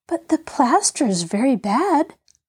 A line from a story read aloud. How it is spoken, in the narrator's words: pleaded Betty eagerly